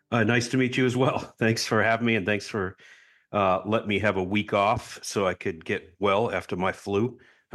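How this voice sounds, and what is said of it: Strong Boston accent. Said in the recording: “Boston accent is gone away. I don't know. It sounded pretty strong to me ... it's still way stronger than your Boston accent.”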